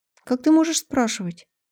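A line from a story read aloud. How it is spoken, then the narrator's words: Deflated, plaintive. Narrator (Russian): Она неожиданно сникла и жалобно договорила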